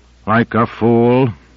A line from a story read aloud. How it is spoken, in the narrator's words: his voice rose a controlled notch